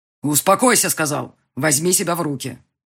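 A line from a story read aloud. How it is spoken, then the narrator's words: Harsh bark. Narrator (Russian): Довольно жестко гаркнул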